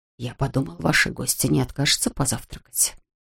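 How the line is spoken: Whisper. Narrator (Russian): шепнул дворецкий

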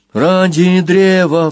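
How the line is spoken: Pleading. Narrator (Russian): взмолился Банкан

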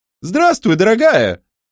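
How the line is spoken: Shouted. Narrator (Russian): крикнула Эленор

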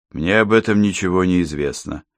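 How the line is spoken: Dry. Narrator (Russian): сухо заметил Йон

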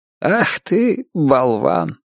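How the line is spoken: Sad old man's whisper. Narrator (Russian): печально прошептал старина Бейли

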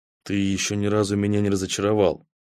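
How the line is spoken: Quiet, distinct. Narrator (Russian): Голос у него за спиной из самой тьмы сказал отчетливо и тихо

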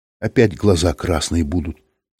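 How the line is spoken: Almost calm. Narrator (Russian): сказала она почти спокойно

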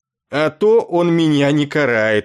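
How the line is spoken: Indignant snort. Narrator (Russian): возмущенно фыркнул Есарин

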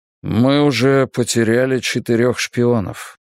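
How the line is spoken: Muffled reply. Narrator (Russian): ответил ремень глухо

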